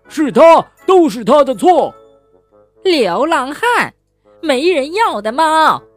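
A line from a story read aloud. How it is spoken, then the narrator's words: Fierce roar. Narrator (Chinese): 肥母鸡大妈向小猫恶狠狠地吼道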